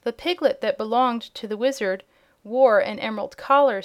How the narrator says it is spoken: said Eureka, loudly enough for all to hear

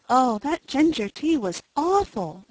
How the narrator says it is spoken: exclaimed poor Cecily

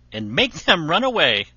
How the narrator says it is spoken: said Shuri, with a laugh

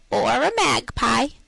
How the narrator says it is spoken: answered she, with a capital imitation of Mistress Mag's croaky voice

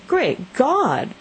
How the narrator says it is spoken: exclaimed the old man

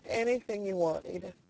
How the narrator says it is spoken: he said brokenly

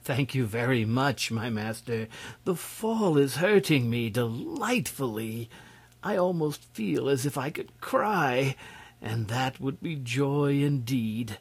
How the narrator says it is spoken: he gave a happy little laugh and said to the prince gratefully

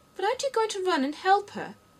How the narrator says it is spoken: Alice asked, very much surprised at his taking it so quietly

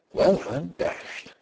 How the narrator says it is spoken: he murmured aloud

